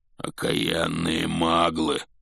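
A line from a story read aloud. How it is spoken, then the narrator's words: Growled. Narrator (Russian): прорычал Хагрид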